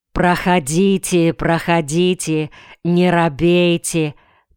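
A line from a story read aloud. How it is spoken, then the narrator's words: Kindly calling out. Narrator (Russian): покрикивал он добрым голосом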